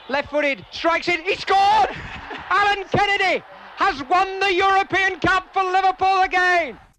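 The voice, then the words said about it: Excited, high-pitched passionate commentary. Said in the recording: “Very passionate, emotional reporting... his voice was a lot higher... I think it was excitement”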